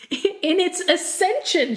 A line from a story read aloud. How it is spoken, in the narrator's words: she shrieked